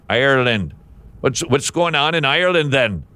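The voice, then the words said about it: Failed mixed attempt at Irish accent. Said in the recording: “I don't know what that accent was either. I was trying to be Irish, but it kind of turned out a little bit of, well, a mutt is what that turned out to be.”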